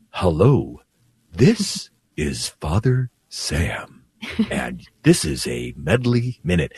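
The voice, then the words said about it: Very slow imitated radio voice. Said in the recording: “I'm going to try to imitate him ... why are you talking so slow? ... It was kind of creepy how slow you were talking”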